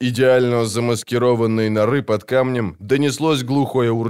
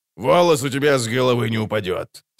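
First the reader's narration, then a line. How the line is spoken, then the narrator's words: Sugary reassurance. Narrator (Russian): сладко заверил Золтан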